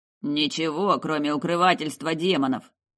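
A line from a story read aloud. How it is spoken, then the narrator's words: Grumbling. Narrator (Russian): проворчал командир взвода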